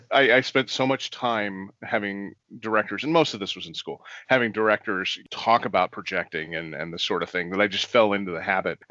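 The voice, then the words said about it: Projecting stage voice, good radio voice. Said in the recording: “I still kind of speak in the stage voice most of the time ... You have a really good radio voice”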